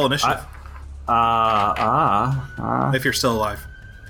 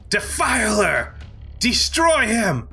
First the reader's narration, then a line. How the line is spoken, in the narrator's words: she yells